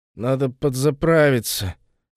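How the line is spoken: Drunken mutter. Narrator (Russian): пробурчал пьяный

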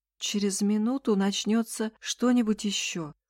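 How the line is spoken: Tired. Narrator (Russian): устало сказала Эсси

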